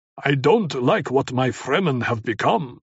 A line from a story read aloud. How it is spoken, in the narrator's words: he growled